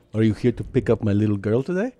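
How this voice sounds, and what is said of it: Heavy Cuban accent impression. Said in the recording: “his dad has a heavy accent, Cuban guy”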